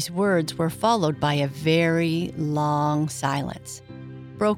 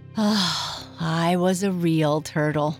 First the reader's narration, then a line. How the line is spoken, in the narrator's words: said the Mock Turtle at last with a deep sigh